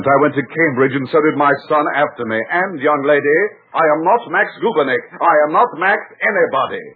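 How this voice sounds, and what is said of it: English accent. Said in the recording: “let's drop that English accent”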